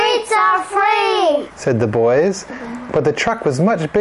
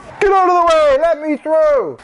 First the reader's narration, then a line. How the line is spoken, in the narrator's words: The driver shouted